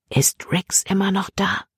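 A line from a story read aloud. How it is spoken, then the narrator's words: Whisper. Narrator (German): flüsterte Libby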